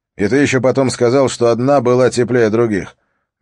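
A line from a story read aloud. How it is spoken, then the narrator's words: Scornful snort. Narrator (Russian): Бьорн Холм фыркнул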